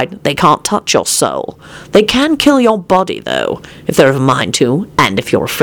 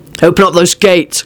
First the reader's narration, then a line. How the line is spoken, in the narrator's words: Quentin barked